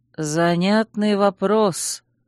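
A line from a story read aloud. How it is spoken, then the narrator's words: Slow drawl. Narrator (Russian): медленно протянул Чейз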